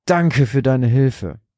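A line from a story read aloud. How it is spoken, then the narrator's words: Exhausted panting. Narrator (German): keuchte Rodolfo erschöpft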